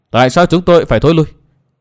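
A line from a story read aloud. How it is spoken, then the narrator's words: Cold question. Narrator (Vietnamese): Tuyết Liên công chúa lạnh lùng hỏi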